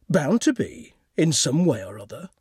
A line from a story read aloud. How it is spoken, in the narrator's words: said Gudrun coolly